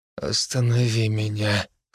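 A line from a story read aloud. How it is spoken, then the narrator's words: Hoarse request. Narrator (Russian): хрипло попросил я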